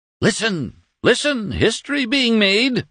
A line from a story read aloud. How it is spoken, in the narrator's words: Doremus cried at his heedless family